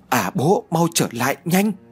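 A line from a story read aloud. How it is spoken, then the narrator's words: Shouting. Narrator (Vietnamese): Đào Như hét lên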